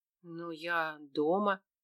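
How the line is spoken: Mumbled. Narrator (Russian): пробормотала

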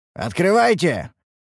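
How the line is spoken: Shouted sharply. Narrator (Russian): прикрикнули мы

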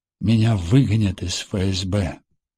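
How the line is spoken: Sigh. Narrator (Russian): вздохнул Машков

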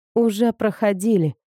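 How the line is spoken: Grumbling. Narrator (Russian): проворчала я

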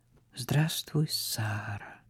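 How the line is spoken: Quiet. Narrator (Russian): сказал он тихо

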